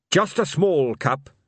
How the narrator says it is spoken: said Carrot, firmly

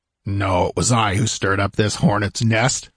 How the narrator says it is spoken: grunted

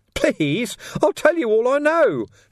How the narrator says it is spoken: Ferret squeaked

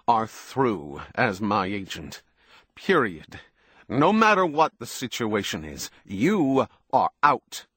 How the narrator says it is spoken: Jason said savagely

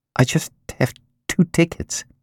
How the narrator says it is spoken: Julie said hesitantly

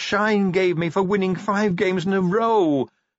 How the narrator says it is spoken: he wailed

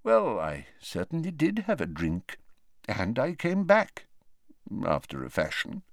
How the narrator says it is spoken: mumbled Dumbledore

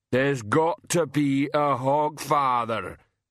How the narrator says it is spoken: Banjo rumbled

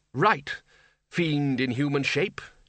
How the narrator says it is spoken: he growled

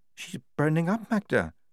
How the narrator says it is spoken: said Lofty quietly

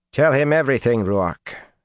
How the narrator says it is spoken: she said sharply

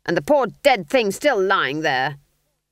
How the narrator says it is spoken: snapped Granny

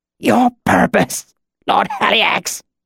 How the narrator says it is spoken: The words were choked out

